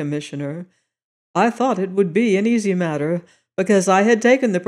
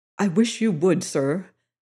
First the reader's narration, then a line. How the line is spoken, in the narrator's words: said Larry earnestly